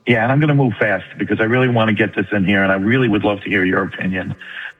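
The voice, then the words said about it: New York accent. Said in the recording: “You don't sound like you're from Texas, dude. You sound like you're from New York.”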